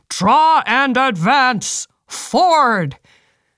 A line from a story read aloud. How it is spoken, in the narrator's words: officers bellowed to the infantrymen